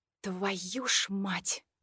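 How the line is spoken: Muttered curse. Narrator (Russian): пробормотала я

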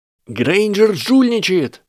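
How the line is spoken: Yelling, muffled. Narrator (Russian): завопил Драко внутри щита

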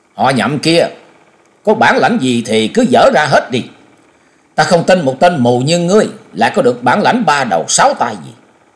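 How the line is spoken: Loud shout. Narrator (Vietnamese): quát lớn

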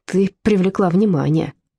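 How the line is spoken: Grumbling. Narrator (Russian): проворчала Зильке

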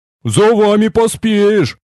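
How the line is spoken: Big man grumbling. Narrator (Russian): проворчал здоровяк

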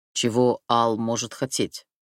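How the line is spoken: Plain. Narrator (Russian): спросил

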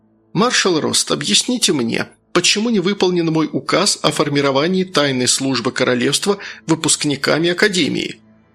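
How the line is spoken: Babbled, then asked. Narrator (Russian): Пролепетал Акакий, но потом спросил

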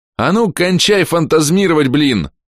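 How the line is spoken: Shouting louder. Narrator (Russian): закричал я пуще

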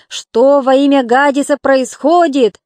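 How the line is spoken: Shouted. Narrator (Russian): закричал

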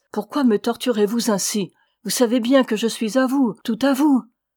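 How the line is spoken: Anguished cry. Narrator (French): s'écria-t-il avec angoisse

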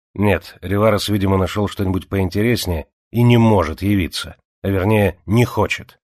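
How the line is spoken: Angry reply. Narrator (Russian): привело Мартини в очень плохое настроение ... он ответил сердито

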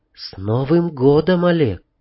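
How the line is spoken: Female whisper. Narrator (Russian): Она шепнула

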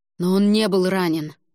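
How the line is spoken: Exclaiming. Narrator (Russian): воскликнул Альгидрас

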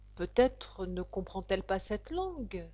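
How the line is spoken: Plain. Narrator (French): dit Alice

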